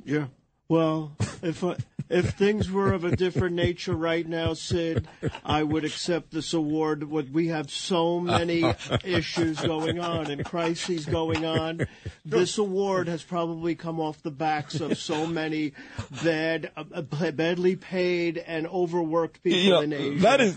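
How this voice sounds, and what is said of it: Imitates another person's voice. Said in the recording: “That is a great impression.”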